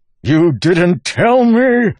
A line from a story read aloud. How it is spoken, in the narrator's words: Wax spat